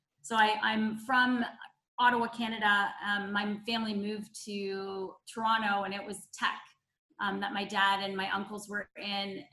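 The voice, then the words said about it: Canadian accent. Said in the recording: “you'll probably hear a Canadian accent somewhere”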